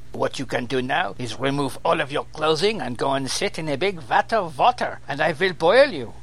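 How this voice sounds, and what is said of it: Put-on vague German accent. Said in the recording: “I seem to have gone vaguely German.”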